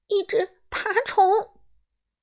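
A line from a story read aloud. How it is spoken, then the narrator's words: Trembling cry. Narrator (Chinese): 达芙妮声音颤抖着叫道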